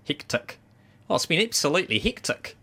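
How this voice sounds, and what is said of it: Put-on New Zealand accent. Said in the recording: “my favourite word to say in a New Zealand accent”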